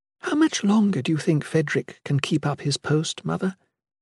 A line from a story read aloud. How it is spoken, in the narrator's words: The Shalane whispered